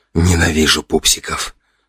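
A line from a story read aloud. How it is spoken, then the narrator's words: Muttered. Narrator (Russian): пробормотал я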